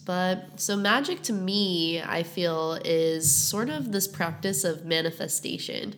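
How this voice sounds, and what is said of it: Congested, stuffy-nosed voice. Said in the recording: “I'm a little bit sick ... I have a stuffed up nose”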